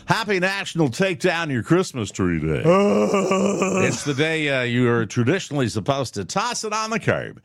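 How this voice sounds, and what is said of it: Radio DJ announcer voice. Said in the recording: “I have to put on my DJ voice for this.”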